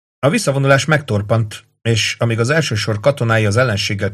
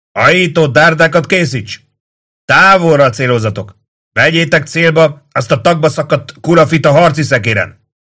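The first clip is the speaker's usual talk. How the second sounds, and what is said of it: Hoarse shouting voice. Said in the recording (Hungarian): “Kiáltott a Kátó kiszáradt torka miatt reket hangon.”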